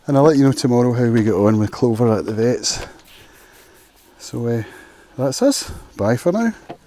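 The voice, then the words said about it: Slightly out of breath. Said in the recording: “a little bit out of breath from walking up the hill”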